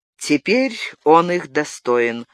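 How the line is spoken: Cold confirmation. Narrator (Russian): холодно подтвердил Габриэль

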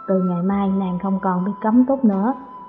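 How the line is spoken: Gentle, reluctant. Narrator (Vietnamese): Hắn bất đắc dĩ, dịu dàng nói

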